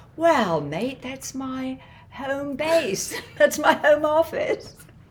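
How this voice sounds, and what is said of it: Put-on Australian-ish accent. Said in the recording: “That was not a New Zealand accent... That was Aussie. Ish, adjacent. Ish.”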